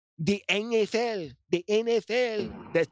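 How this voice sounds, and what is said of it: Fake Spanish accent, old man voice. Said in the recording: “I'm trying to do my Spanish accent of like a Spanish dude, like a Spanish old man ... I'm doing a fake impersonation of one of my uncles”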